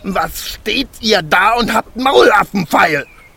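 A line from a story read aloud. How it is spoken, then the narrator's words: Dwarf shouting furiously. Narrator (German): schrie der Zwerg und sein aschgraues Gesicht war zinnoberrot vor Zorn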